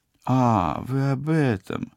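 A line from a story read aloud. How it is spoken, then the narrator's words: Confused drawl. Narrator (Russian): растерянно протянула оператор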